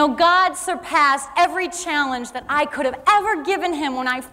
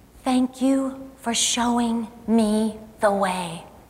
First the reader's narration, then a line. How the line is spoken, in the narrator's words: he whispered in my ear